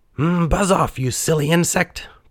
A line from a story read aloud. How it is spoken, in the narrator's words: piped Pinocchio